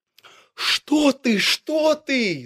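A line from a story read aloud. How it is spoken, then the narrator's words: Animals shouting together. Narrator (Russian): закричали звери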